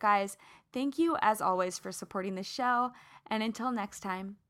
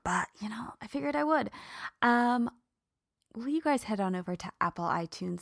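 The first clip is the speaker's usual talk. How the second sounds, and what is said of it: Whispering. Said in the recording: “I'm whispering because, well, I don't need to whisper”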